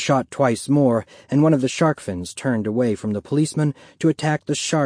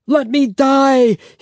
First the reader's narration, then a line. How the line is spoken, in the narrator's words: he cried out again